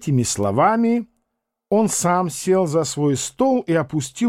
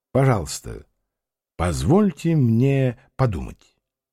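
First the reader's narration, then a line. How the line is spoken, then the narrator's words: Calm. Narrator (Russian): спокойно сказал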